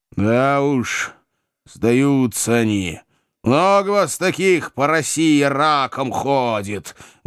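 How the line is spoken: Menacing bark. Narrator (Russian): грозно рявкнул я

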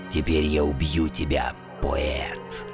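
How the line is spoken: Menacing beastly growl. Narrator (Russian): Громадный волк грозно прорычал

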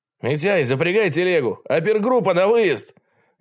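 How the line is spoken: Loud command, coughing. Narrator (Russian): громко приказал, закашлялся

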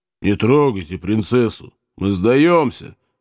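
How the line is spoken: Muffled, hollow announcement. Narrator (Russian): глухо оповестил казак

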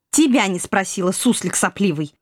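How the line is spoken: Habitual snapping retort. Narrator (Russian): Привычно огрызнулась экспансивная студентка

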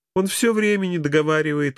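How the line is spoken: Laughing. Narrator (Russian): рассмеялась Эльвира

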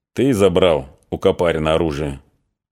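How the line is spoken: Quiet question. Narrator (Russian): он тихо спросил

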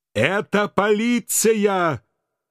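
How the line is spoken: Yelling over gunfire. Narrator (Russian): Пытаясь перекричать выстрелы, заорал я

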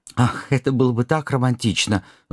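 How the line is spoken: Sighing. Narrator (Russian): Вздохнул Люстрицкий

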